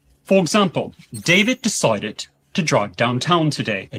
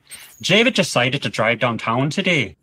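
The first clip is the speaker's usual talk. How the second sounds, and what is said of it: Northern Irish accent. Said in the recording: “In Northern Irish accent, it would come across like”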